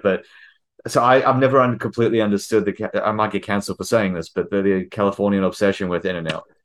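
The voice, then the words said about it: Non-American foreign accent. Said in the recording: “I'm a transplant to the US, obviously, because the accent gives that away.”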